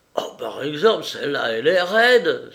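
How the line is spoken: Servant crying out. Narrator (French): s'écria le domestique

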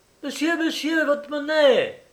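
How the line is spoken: Shout. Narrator (French): cria celle-ci

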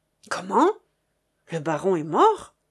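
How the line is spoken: Surprised exclamation. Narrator (French): s'exclama Chéri Bibi en reculant d'un pas sous l'effet de la surprise

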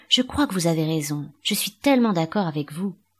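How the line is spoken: Silly young woman's voice. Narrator (French): prononcées d'une jeune voix féminine plutôt stupide

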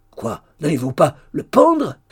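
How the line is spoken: Shout. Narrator (French): cria Hugues

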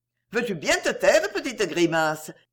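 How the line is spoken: Cheerful. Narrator (French): dit gaiement Geneviève

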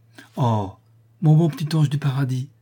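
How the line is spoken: Exclaiming. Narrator (French): s'écria Mont-Saint-Jean

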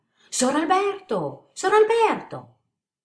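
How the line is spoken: Loud distant calling. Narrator (Italian): la voce della Rosa che, chiamandolo a voce alta dal prato della villa, gridava

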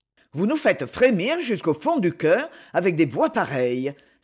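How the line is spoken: Exclaiming, interrupting. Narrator (French): s'écria Lord Orwilly sans attendre que Julianne de Wolberg eût terminé l'accompagnement

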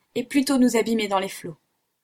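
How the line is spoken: Exclaiming. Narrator (French): s'écria-t-il

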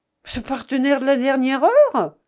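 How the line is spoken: Exclaimed. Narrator (French): s'écria le journaliste

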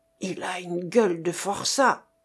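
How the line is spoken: Growled. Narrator (French): gronda-t-il

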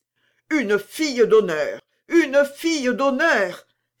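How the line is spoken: Old lady exclaiming. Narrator (French): s'écria la vieille dame

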